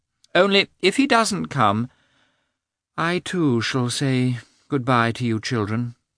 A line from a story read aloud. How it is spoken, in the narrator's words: said the princess with a sorrowful sigh